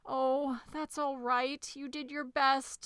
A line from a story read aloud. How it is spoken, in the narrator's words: sobbed Elmer